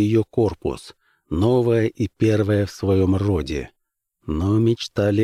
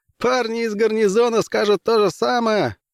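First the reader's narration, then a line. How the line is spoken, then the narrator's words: Laughing. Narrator (Russian): рассмеялся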